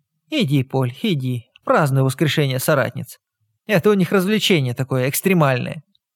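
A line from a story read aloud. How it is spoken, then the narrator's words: Sarcastic old woman. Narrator (Russian): язвительно пояснила старуха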